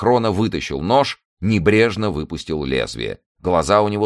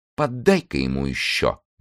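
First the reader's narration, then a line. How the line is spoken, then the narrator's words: Quiet voice. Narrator (Russian): негромко сказала она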